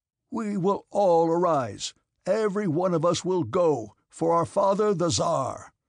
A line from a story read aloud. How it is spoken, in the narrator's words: he shouted